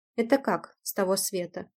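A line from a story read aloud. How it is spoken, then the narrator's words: Smirking. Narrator (Russian): хмыкнул белый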